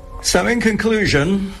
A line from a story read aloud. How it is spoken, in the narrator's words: Andrew Tilson barked at his editorial team